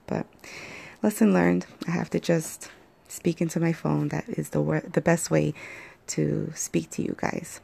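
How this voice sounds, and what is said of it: Slightly hoarse voice. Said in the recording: “My voice is a little hoarse because I did sleep in today... my voice is still a little hoarse”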